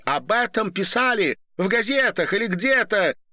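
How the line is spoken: Shouted. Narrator (Russian): крикнула Ольга Дине

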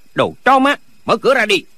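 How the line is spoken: Shout. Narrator (Vietnamese): Có người quát

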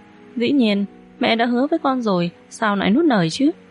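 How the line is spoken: Strained, then smiling. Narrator (Vietnamese): Sắc mặt Lương Hồng Mân cứng đờ một chút, ngay sau đó mỉm cười nói

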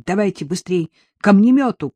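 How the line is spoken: Shouted. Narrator (Russian): крикнул он

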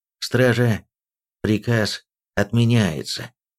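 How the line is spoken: Forced, strained. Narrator (Russian): принужденно выдавил

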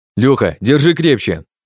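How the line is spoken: Hurried shout. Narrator (Russian): Только и успеваю выкрикнуть я

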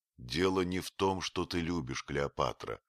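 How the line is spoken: Plain. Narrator (Russian): сказал я

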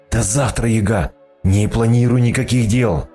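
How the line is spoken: Hoarse rasp. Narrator (Russian): прохрипел

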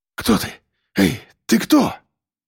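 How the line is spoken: Frightened breathless gasp. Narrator (Russian): Испуганно выдохнул Андрей

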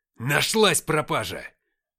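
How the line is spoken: Bark. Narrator (Russian): рявкнул отец

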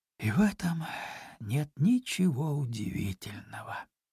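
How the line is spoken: Sighing. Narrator (Russian): вздохнув, добавила

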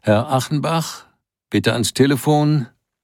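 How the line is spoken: Page calling out. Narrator (German): Ein Page rief

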